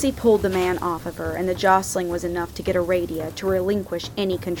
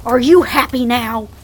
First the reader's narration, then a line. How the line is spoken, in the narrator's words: screaming